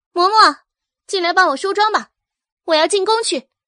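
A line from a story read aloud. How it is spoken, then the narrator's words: Calling out. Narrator (Chinese): 阮明星 喊道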